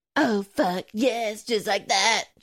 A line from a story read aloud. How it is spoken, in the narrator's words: she moans